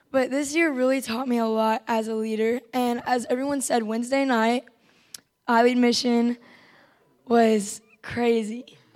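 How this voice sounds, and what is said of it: Strained, nearly lost voice. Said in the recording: “I lost my voice, by the way. I lost it like the first day.”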